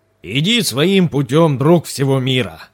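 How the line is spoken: Booming old warrior. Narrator (Russian): прогремел старый воин

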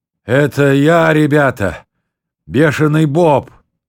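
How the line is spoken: Sudden phlegmy wheeze. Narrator (Russian): вдруг прохрипел сквозь мокроту

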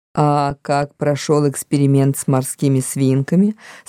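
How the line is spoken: Plain. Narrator (Russian): спросила она

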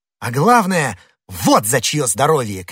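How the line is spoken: Ecstatic shout. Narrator (Russian): крикнул Д'Артаньян, словно в порыве восторга

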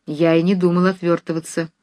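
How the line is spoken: Stern and dejected. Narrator (Russian): строго и уныло сказал Нехлюдов

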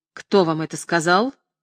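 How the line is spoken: Angry question. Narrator (Russian): сердито спросил Тавровский

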